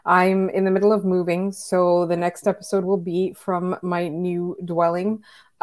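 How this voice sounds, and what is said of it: Hoarse, worn-out voice. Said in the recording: “The listeners will hear that my voice is kind of shot.”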